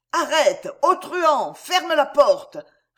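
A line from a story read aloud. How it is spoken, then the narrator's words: Shouting at top of lungs. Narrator (French): répéta Roquetaille à tue-tête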